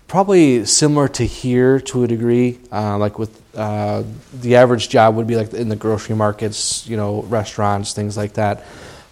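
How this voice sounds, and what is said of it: American accent. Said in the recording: “having an American accent”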